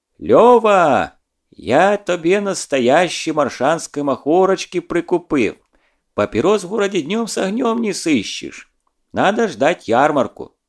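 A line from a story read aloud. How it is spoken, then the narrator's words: Yelled. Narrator (Russian): он заорал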